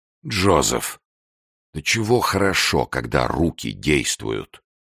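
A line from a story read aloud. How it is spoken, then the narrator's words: Breathless mutter. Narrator (Russian): Виккерс, тяжело дышавший рядом, пробормотал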